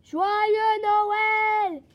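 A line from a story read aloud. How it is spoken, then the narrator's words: Shouted. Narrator (French): cria-t-il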